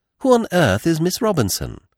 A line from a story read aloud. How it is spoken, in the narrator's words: Poirot beamed kindly on me